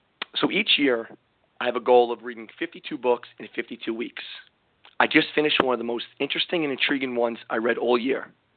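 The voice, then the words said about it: Strained, worn-out voice. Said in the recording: “I apologize for my voice. I'm still trying to get it back from the screaming and yelling”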